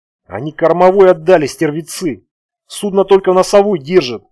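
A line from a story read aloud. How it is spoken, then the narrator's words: Groaning. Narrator (Russian): простонал он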